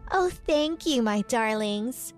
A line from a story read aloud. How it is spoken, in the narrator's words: said Whitney in a sweet voice